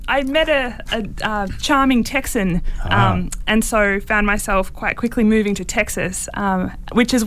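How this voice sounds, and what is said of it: Australian accent, nasal word endings. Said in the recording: “We wanted to get that real clear Australian sound ... Australians tend to do a bit of a nasal thing at the end of a lot of words ... you drop the R”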